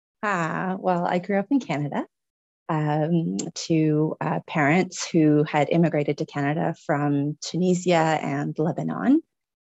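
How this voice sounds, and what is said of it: Slight foreign accent. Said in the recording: “I hear a bit of an accent there. ... So that's where the accent's from.”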